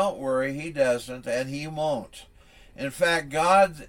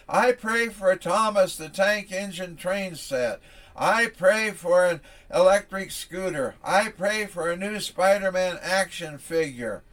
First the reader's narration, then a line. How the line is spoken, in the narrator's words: The youngest one prayed at the top of his voice